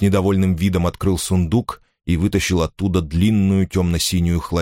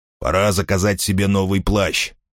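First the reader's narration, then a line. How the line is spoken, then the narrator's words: Grumbling. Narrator (Russian): пробурчал он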